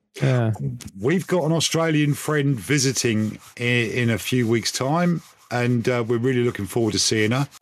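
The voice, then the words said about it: Put-on Australian twang. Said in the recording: “I don't know why I'm talking with an Australian twang. I can't help it whenever I talk about Australia. ... your Aussie accent”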